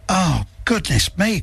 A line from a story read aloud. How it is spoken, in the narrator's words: cried Zack